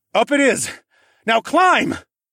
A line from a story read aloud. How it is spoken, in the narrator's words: I barked